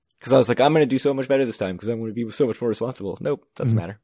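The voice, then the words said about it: Very fast speech. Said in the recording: “I'm talking very fast”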